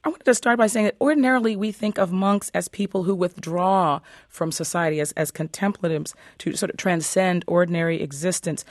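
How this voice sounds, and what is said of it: Voice affected by a cold. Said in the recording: “Forgive my voice. ... I'm working on a little bit of a cold here”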